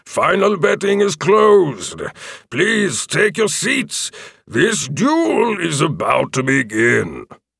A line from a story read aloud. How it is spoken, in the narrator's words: the announcer boomed out